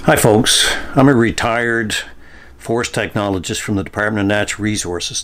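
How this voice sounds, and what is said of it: Local Nova Scotia accent. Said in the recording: “Tell me that accent isn't from here.”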